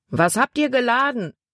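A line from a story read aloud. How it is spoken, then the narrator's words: Man calling out. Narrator (German): rief ein Mann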